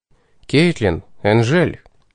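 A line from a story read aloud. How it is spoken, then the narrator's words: Cough, quiet call. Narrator (Russian): Кашлянув, негромко окликнул я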